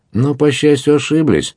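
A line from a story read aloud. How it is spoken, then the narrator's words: Cheerful hermit reply. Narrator (Russian): весело ответил отшельник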